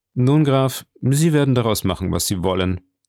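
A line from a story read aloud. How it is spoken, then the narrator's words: Indifferent tone. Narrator (German): sagte mit gleichgültigem Ton Monte Cristo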